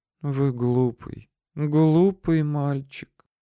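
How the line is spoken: Quiet. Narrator (Russian): тихо сказала Ракель Самуиловна

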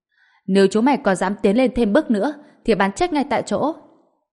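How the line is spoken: Angry shout. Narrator (Vietnamese): Ngạo Quảng giận dữ hét lên

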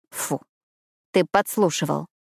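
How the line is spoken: Muttered. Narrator (Russian): пробормотала

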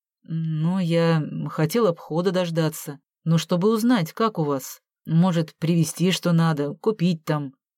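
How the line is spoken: Mumbled. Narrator (Russian): промямлил Саша

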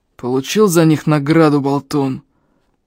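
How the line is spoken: Rasping. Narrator (Russian): прохрипел он

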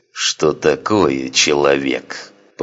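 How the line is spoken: Growling. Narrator (Russian): прорычал Санак

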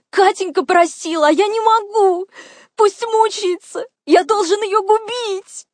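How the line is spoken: Sobbing. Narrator (Russian): Он всхлипывал

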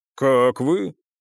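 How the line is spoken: Deep bass voice. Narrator (Russian): Копиевский говорил густым басом

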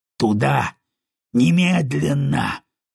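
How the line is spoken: Growled. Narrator (Russian): прорычал Кайл

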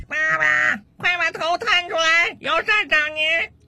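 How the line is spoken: Child's loud shouting. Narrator (Chinese): 他儿子的大声喊叫声

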